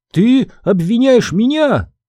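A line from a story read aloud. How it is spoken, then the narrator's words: Fairy's shriek. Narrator (Russian): взвизгнула фея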